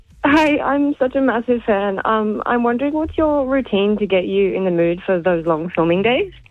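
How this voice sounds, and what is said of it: Shaky, nervous voice. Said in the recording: “My voice sounds so shaky. I'm really nervous.”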